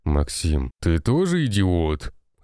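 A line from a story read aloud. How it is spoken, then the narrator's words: Old man's growl. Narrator (Russian): рыкнул старик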